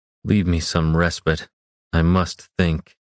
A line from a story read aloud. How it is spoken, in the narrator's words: managed to order without his voice breaking